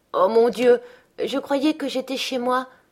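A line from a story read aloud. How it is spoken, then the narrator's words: Sighing. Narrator (French): soupira-t-elle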